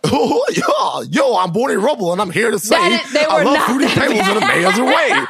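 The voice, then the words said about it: Imitates a cartoon character's voice. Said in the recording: “that was a really good Barney impression”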